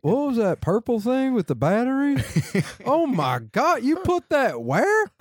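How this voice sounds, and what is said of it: Imitates another person's voice. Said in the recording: “that was an impression of my mom that you were doing”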